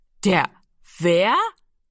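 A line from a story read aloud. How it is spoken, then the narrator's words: Loud laughter. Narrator (German): Giro lachte laut auf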